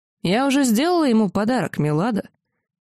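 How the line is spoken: Little dragon, sudden remark. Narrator (Russian): Дракончик вдруг неожиданно сказал

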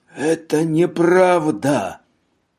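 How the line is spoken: Hoarse wheeze. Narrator (Russian): прохрипел он

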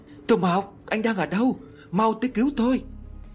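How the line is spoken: Terrified tearful scream. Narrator (Vietnamese): Nước mắt của tôi tuôn trào, lúc này gần như sắp bị dọa chết thì cố gắng hết sức để hét tên Tô Mộc

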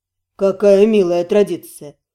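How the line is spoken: Amused snort. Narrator (Russian): хмыкнул наместник

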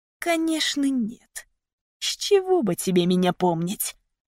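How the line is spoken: Angry hiss. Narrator (Russian): прошипел он со злостью

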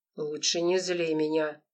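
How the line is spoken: Cold lifeless, through teeth. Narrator (Russian): процедил он своим холодным неживым голосом

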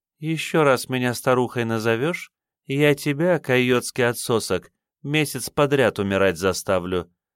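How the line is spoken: Deceptively gentle threat. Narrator (Russian): ласково сказала Хэшке

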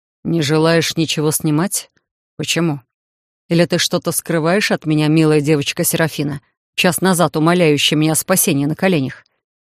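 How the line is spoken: Mocking through teeth. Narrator (Russian): Последние три слова Титан процедил с какой-то особой издевкой

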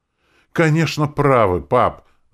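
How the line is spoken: Enthusiastic exclamation. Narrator (Russian): с воодушевлением воскликнул Ворт

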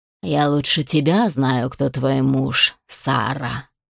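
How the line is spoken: Rustling creature voice. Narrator (Russian): ответило существо шелестящим голосом

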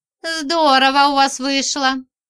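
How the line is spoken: Short laugh, female friend. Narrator (Russian): хохотнула подружка

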